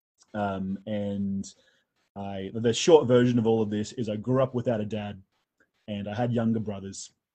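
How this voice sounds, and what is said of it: Australian accent. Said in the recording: “I'm an Australian, and you can tell from the accent that I'm Australian.”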